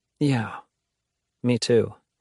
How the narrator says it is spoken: June says softly

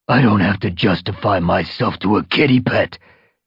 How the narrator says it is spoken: he growled

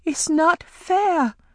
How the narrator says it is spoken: Amari cried

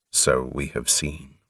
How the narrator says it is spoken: responded Quan grimly

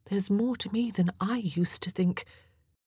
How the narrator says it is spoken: in a quieter tone of voice, she added

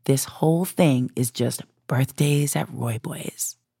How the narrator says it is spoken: quietly said

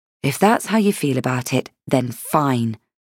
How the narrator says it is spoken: I said, purposely dropping my voice against her rising anger

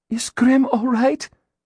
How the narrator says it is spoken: Gillian asked breathlessly

